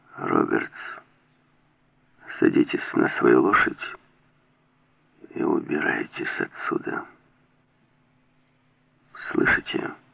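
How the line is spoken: Quiet. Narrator (Russian): тихо произнес

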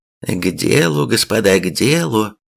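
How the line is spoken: After laughing, remarking. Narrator (Russian): отсмеявшись, заметил Николай

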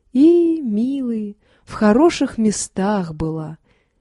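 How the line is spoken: Soft tender old woman. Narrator (Russian): говорила тихо и умиленно баба Квочка

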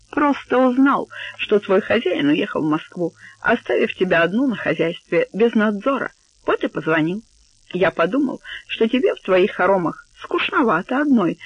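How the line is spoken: Laughing joke over phone. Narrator (Russian): засмеявшись в трубку, пошутил Стакоз

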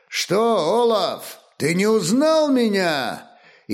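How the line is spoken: Loud shout. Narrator (Russian): высокий воин громко крикнул

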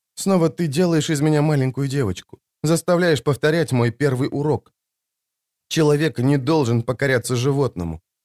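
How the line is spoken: Forced out, tearless sob. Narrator (Russian): выдавила Джессика и вздрогнула от рыдания без слез

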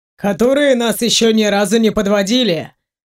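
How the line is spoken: Wry snort. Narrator (Russian): хмыкнул Ваня

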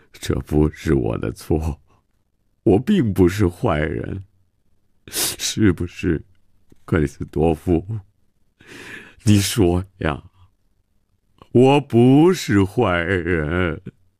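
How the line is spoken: Self-pitying lament. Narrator (Chinese): 曼西沃自怨自叹地说

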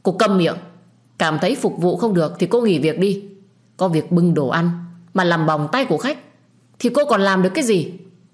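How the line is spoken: Angry shouting. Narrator (Vietnamese): Huy nhất định sẽ tức giận, anh ta lại lớn tiếng quát tôi

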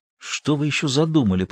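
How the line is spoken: Whisper in ear. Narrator (Russian): прошептал он на ухо Каздану

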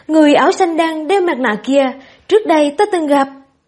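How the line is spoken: Careful, topic-changing. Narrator (Vietnamese): Ngô Sợ Sợ cẩn thận dời đề tài, nói

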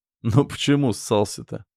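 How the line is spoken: Quiet chuckle. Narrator (Russian): Степан тихо хохотнул

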